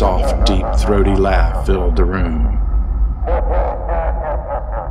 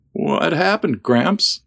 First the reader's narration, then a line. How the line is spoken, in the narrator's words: asked in a breaking voice